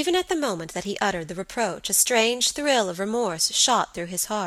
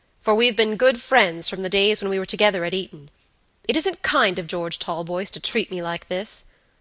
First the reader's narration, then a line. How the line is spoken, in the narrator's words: said Robert gravely